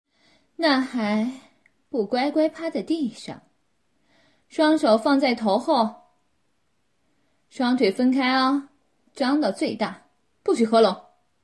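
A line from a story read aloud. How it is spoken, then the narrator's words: Mother, smug laughing. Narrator (Chinese): 他妈妈得意地笑着说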